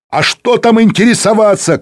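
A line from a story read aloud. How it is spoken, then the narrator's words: Shouting. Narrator (Russian): кричал Азизбеков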